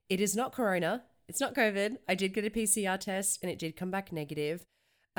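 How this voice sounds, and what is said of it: Sick, congested-sounding voice. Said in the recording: “You can probably hear it in my voice, but I do have a cold.”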